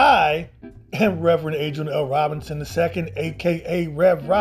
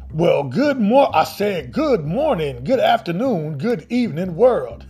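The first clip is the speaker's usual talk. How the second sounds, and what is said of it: Cartoon rooster character voice impression. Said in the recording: “my Foghorn Leghorn impersonation”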